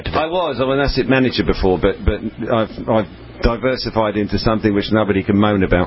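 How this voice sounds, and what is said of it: Debonair British accent. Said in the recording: “He's got that debonair British accent. I love that British accent.”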